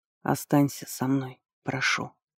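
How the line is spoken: Barely audible murmur. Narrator (Russian): проговорил он в темноту чуть слышно

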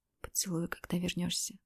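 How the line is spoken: Whisper. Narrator (Russian): прошептала я

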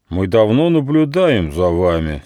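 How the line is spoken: Angry leader. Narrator (Russian): сердито сказал вожак

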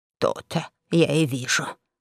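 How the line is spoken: Grumbling. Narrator (Russian): пробурчал

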